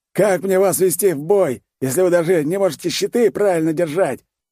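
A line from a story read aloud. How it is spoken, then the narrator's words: Frenzied yelling, mustached man. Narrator (Russian): с пеной изо рта орал усатый мужик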